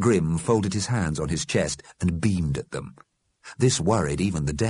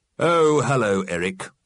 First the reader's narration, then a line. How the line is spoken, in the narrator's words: said coldly